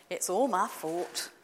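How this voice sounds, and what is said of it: Poor imitation Scottish accent. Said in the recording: “apologies for the appalling attempt at a Scottish accent”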